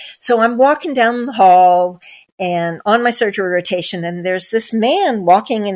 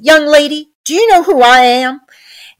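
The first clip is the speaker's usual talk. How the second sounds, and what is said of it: Southern Georgia accent. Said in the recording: “This was in Georgia, hence the accent.”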